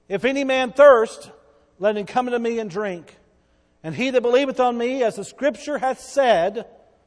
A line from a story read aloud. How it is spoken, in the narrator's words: Jesus stood up in that day and cried, saying